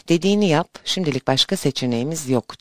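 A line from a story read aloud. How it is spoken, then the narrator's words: Whispering. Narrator (Turkish): diye fısıldadığını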